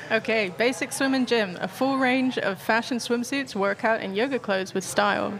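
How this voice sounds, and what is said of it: Reads in her own natural accent. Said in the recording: “do it, in your own accent ... a pretty good interpretation of her accent”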